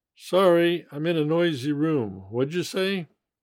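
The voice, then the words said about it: Fast, run-together speech. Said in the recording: “say it fast.”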